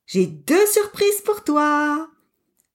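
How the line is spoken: Exclaimed. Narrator (French): Pablo s'exclame

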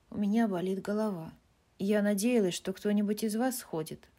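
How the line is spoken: Plain. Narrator (Russian): сказала Бесс

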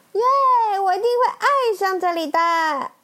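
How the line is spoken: Loud. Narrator (Chinese): 闪电麦昆大声说

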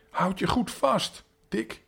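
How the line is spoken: Mother shrieking in fear. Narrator (Dutch): gilde zijn moeder in haar angst toe

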